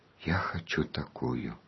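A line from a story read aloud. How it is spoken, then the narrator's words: Child's whisper. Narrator (Russian): Жоржик прошептал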